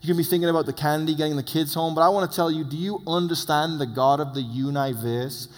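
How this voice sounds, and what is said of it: Speaks with a noticeable accent. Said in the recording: “my accent”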